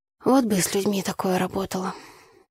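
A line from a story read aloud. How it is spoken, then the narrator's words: Sighing. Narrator (Russian): вздохнула я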